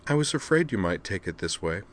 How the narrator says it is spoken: she said gently

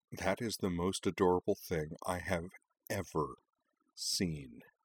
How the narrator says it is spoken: Karana mused quietly

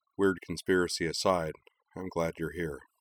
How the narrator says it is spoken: he said quietly

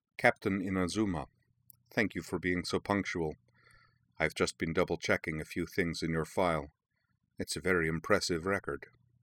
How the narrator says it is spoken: said, in a low voice, touched with a faint accent

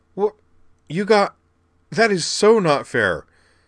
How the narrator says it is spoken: he sputtered

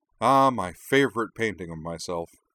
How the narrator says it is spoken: she added sarcastically

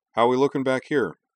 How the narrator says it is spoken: she asked

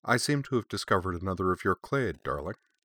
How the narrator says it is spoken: remark blandly

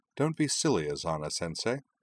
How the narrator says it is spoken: she said cheerfully

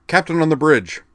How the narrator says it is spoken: barked in Klingonese

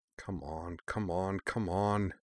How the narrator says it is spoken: Shirley muttered

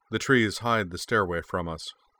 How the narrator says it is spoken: the unfamiliar voice replied calmly

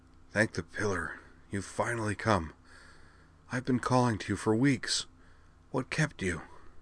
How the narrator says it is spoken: he said, in a soft, raspy voice, like one that has been overused recently

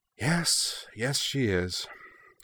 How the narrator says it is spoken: Kaname replied with a sigh

